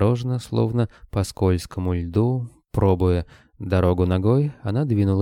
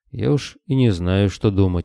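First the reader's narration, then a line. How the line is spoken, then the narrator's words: Gloomy reply. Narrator (Russian): мрачно отозвался Григорий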